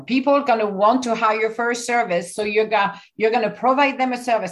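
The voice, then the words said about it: Mixed Italian French accent. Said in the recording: “you have such a lovely accent. You're Italian, but your accent is French ... It's Italian, French, mix of Portuguese, Spanish, and every other language I spoke. It's like a cocktail.”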